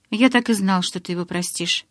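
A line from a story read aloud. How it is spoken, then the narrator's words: Calm, smiling. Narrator (Russian): спокойно улыбнулся Эдвард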